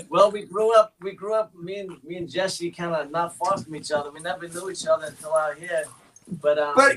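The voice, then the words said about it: East Coast American accent. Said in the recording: “Where's your accent from? Because that's definitely not Los Angeles. You're from the East Coast? ... I was gonna say not New York, but it's definitely East Coast, so it's Rhode Island.”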